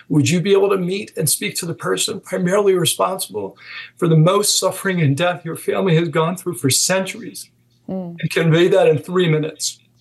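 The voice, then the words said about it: Emotional, strained speaking voice. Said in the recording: “Sorry if I got emotional.”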